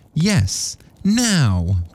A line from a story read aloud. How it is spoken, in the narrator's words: cried Mrs